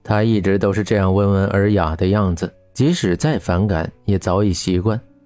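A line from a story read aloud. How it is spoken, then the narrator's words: Gentle, smiling. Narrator (Chinese): 徐峰温和的笑着说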